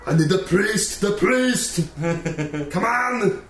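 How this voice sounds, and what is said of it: Imitates another person's voice. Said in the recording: “The Arnold voice ... does a fantastic impression of you.”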